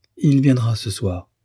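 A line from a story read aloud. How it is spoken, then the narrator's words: Young woman, quickly. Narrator (French): dit vivement la jeune fille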